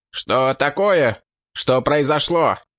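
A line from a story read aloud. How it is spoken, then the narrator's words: Shout. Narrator (Russian): выкрикнул Линк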